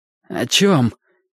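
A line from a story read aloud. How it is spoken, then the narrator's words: Barely forced out. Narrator (Russian): еле выдавил из себя доктор Дорей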